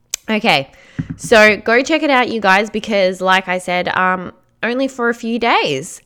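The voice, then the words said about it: Strained, fading hoarse voice. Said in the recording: “I'm just losing my voice all of a sudden”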